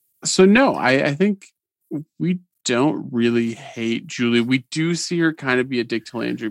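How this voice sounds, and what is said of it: Usual voice. Nothing is said of it.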